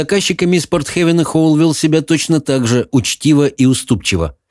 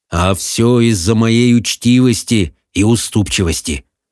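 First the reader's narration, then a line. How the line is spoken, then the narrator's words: Gloomy. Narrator (Russian): мрачно продолжал Хоул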